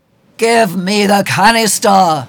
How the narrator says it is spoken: Nylock shouts at the doctor

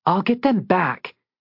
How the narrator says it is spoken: she said fiercely

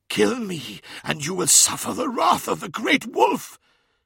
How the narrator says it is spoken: hissed Skarsen

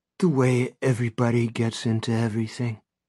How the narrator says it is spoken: Brady says gently

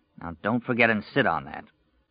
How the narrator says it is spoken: Under his breath, Stu heard him mutter

